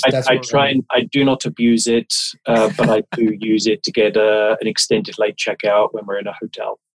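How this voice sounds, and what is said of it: English accent. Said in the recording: “you've got an accent ... having an English accent”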